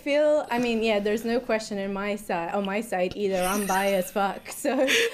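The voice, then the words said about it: Mixed Italian, British, Australian, American accent. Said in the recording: “my accent is this weird blend of all the places I've lived in ... I'm Italian, but then I spent quite a bit of time in Australia and in the US as well”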